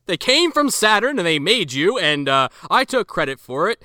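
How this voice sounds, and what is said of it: Imitates another person's voice. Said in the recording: “I'm doing the John Hurt voice,”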